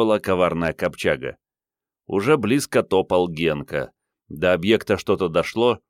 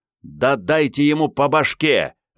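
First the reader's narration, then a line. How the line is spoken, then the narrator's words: Indignant yell. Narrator (Russian): возмущенно заорал Генка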